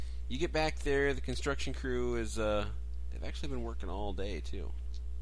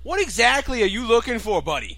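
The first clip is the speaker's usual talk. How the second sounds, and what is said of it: Put-on New York accent. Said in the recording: “That was a New York accent.”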